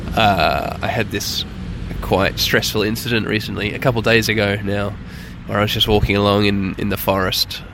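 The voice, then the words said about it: Hoarse voice. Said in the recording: “my voice is a little bit hoarse. ... I've done myself maybe a little bit of vocal cord damage.”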